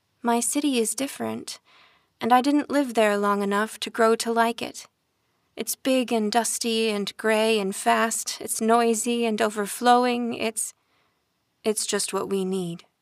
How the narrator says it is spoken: Rafa said

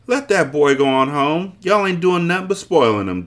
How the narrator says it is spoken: Jessie yelled

